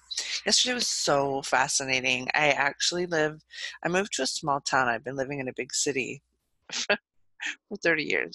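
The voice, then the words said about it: Scratchy, hoarse voice. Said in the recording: “my voice is a little scratchy today”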